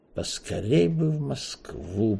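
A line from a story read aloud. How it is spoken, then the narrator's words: Melancholy mutter. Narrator (Russian): пробормотал Эраст Петрович, с тоской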